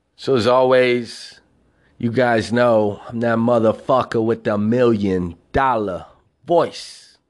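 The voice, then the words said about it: Southern American twang. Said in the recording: “That hobo with his Southern Twang show.”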